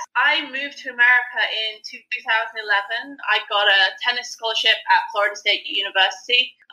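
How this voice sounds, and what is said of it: English accent. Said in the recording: “I'm originally from England, if you can't tell by the accent.”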